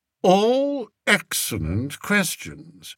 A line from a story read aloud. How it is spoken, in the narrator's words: replied Spittleworth smoothly